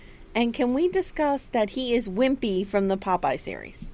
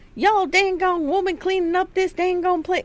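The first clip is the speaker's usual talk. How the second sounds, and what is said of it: Weird put-on cartoonish accent. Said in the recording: “can we discuss his accent? ... It's Yosemite Sam. ... Weird accent.”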